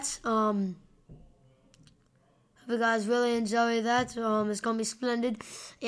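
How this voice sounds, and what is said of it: Put-on English accent. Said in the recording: “I'm doing an English accent.”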